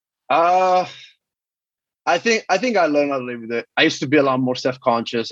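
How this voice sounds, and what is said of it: Speaks with a noticeable accent. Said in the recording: “Are you conscious of your accent? ... I used to hate when people, like, repeat what I say, like, with my accent.”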